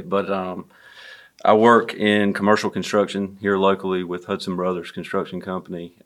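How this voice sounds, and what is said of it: Southern American accent. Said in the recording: “which explains my Southern accent and not an accent from Ohio necessarily”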